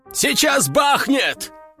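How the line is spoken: Soldier shouting. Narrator (Russian): крикнул кто-то из бойцов

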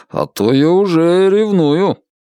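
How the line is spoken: Grumbled. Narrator (Russian): проворчал Алан

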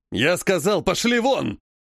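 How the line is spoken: Enraged old man barking. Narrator (Russian): рявкнул окончательно взбесившийся дед

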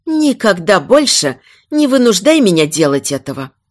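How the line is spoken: Angry reply. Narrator (Russian): сердито ответила она

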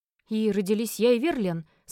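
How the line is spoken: Hoarse question. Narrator (Russian): спросила осипшим голосом

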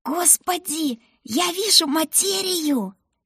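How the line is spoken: Squeak. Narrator (Russian): пискнула она

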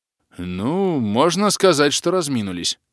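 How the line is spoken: Snorted. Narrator (Russian): хмыкнул

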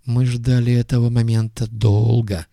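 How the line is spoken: Grim explanation. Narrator (Russian): мрачно пояснил Нагиб

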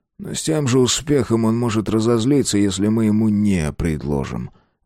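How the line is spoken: Sighing. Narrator (Russian): вздохнул Мартин

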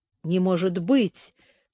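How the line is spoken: Groan. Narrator (Russian): простонал Лис

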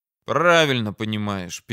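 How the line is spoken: Sad. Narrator (Russian): печально кивнул

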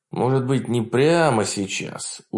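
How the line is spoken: Dejected drawl. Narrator (Russian): уныло протянул адмирал Парнелл

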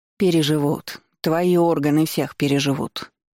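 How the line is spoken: Grumbling grandmother. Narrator (Russian): пробурчала бабушка

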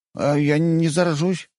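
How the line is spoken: Frightened young lad. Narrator (Russian): испуганно спросил паренек

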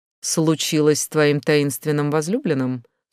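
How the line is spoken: Dry question. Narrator (Russian): сухо спросил Кен

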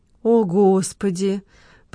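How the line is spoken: Moaning. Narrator (Russian): простонала Лола

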